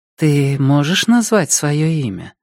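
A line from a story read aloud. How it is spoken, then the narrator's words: Gentle question. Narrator (Russian): ласково спрашивает она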